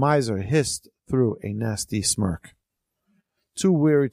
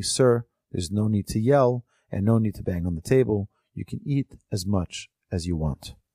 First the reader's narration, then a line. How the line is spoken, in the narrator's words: The benefactor said calmly